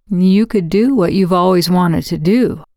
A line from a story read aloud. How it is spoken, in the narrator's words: I said